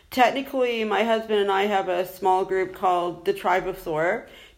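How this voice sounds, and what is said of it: American accent. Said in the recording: “obviously you can tell from my accent, I'm originally from the United States”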